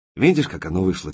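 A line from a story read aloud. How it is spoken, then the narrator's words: Quiet. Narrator (Russian): тихо сказал Коренев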